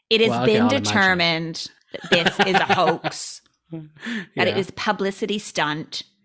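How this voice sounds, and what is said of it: Camp Colorado accent, Californian style. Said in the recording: “the accent of the sheriff of Laramie County ... It's just fucking Colorado. It's not a good one. ... It's just this, but less. ... it's like a California kind of style. ... He's very camp.”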